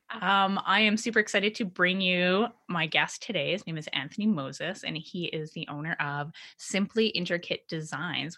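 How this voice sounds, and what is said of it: Slightly hoarse, croaky voice. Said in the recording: “I've got a frog in my throat.”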